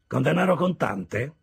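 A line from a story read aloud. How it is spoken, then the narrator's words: Extremely dry tone. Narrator (Italian): disse Wemmick in un tono più asciutto di qualsiasi segatura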